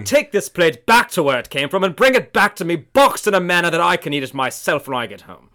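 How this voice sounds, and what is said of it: Put-on posh English accent. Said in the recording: “So do me with an English accent ... You think I have a better English accent than you? ... do your British accent again? ... I'm more of a posh Londoner.”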